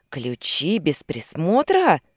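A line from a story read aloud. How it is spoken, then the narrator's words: Angry hiss. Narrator (Russian): Злобно прошипел Ансон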